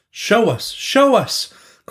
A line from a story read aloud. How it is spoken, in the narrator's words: cried the crowd in great excitement